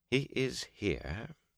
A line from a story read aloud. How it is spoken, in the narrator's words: Varen said calmly